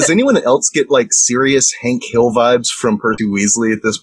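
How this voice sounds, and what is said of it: Usual voice. Nothing is said of it.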